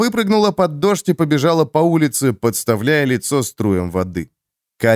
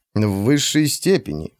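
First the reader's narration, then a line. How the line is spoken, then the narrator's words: Menacing judge's pronouncement. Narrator (Russian): грозно вещает судья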